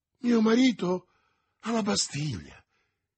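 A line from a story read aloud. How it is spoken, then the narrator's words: Exclaimed. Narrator (Italian): esclamò Madame Bonacieux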